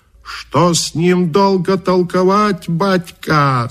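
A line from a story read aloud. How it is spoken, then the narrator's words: Shouted. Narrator (Russian): закричал Каракача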